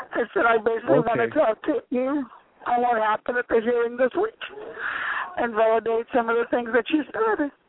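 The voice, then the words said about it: Hoarse, failing voice. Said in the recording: “It's my voice. I'm losing my voice.”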